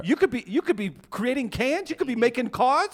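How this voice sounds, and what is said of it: Put-on Boston accent. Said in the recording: “I got a Boston accent.”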